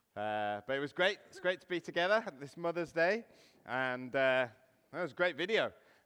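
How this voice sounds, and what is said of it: Weak voice from a cough. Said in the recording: “my voice isn't too strong... I've had a really bad cough all week”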